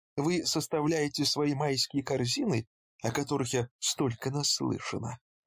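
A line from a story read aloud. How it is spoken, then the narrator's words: Fake-friendly, mocking inquiry. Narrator (Russian): Поинтересовалась она наигранно дружеским тоном, который, однако, не скрывал насмешки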